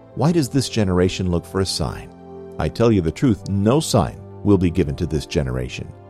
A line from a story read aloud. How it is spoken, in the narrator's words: Sighing deeply in his spirit, said